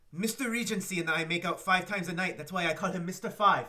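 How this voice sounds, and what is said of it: Deliberately bad French accent. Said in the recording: “me trying to do a really bad French accent”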